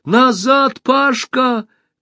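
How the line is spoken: Shout. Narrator (Russian): крикнула Алиса

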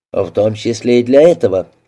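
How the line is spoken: Dry. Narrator (Russian): сухо ответил детектив

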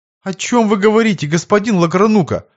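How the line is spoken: Flustered babbling. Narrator (Russian): пролепетал растерянный приказчик

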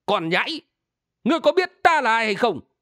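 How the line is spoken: Old man shouting. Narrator (Vietnamese): Lão hét lên

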